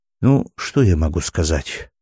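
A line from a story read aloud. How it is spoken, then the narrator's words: Sighing. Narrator (Russian): вздохнула Мила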